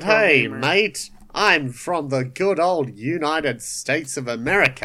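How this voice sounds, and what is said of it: Put-on obvious Australian accent. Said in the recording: “he has a very obvious Australian accent”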